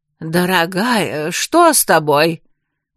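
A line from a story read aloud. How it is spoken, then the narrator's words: Worried question. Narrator (Russian): взволнованно спросил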